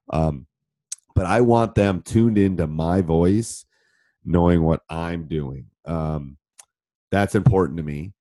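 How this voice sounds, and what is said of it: Deeper voice, sounds like a cold. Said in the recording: “deep voice ... It's a little deeper than normal because I have a cold.”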